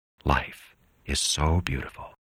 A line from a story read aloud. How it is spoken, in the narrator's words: he whispered